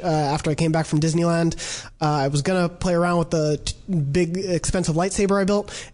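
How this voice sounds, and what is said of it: Sick-sounding voice. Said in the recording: “as you may hear from my voice, been a little sick”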